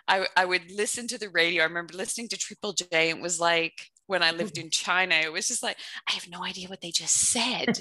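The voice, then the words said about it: Mixed Canadian-Australian accent. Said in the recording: “It's a mutt accent, and I can even hear that it's a mutt accent. ... she had the same mutt accent ... I get in trouble for not sounding properly Canadian.”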